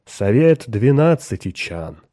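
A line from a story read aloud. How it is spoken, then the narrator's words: Solemn announcement, servant. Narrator (Russian): слуга торжественно объявил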